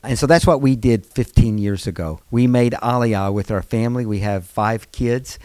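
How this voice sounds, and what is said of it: American accent. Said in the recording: “You probably can tell from my accent, it's an American accent.”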